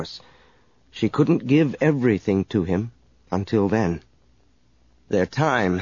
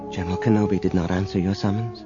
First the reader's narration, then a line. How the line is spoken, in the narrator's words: said quietly